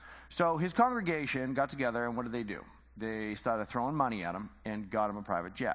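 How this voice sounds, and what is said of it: Usual voice. Nothing is said of it.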